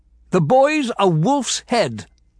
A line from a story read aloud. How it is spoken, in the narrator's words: the steward shouted